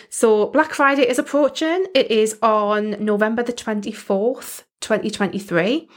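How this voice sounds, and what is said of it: British accent. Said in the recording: “hopefully you can tell from my accent. I am in the UK”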